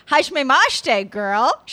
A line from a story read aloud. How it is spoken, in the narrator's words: said happily